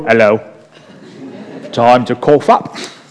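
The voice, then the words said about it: Put-on Cockney accent. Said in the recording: “that was my impression of a Cockney accent.”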